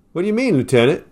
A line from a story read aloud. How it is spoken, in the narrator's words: asked the Greek